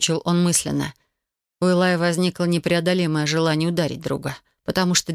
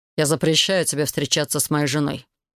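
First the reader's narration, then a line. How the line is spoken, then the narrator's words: Even tone. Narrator (Russian): ровным тоном произнес Себастьян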